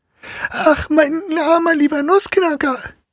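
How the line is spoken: Loud shout. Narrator (German): schrie Marie laut

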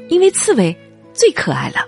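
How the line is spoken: Little girl laughing. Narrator (Chinese): 小女儿笑着说

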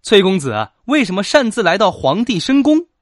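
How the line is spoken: Angry woman. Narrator (Chinese): 女子面带怒色的说

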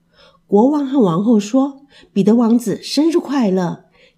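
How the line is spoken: Sighing. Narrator (Chinese): 王后叹息着说

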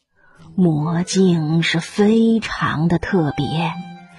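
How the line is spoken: Exclaiming in wonder. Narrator (Chinese): 他感叹道

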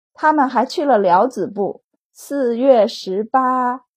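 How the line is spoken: Amazed exclamation. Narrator (Chinese): 傅文云惊叹道

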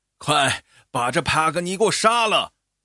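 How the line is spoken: Frantic shouting while running. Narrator (Chinese): 一边跑一边发疯似的向幽灵吼

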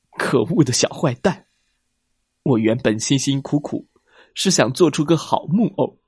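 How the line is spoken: Sobbing. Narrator (Chinese): 可怜的杰佩托抽泣着说

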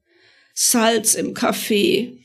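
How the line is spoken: Wailing. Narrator (German): sagte jammervoll

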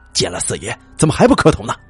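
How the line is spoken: Angry scolding father. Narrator (Chinese): 父亲怒骂我

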